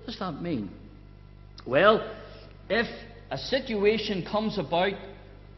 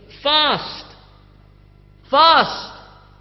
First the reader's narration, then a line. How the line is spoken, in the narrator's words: the judge or the adjudicator, the one in charge, shouting